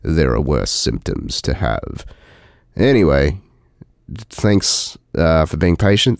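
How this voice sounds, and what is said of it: Sick, altered voice. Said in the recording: “fucking shivering and speaking in this cool voice,”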